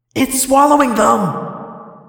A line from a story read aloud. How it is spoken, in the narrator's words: Tobias cried